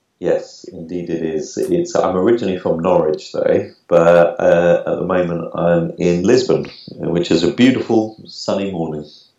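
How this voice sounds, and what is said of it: British English accent. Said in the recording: “a fine UK accent”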